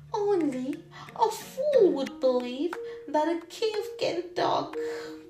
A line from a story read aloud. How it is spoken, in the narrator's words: While running, she laughed and said to herself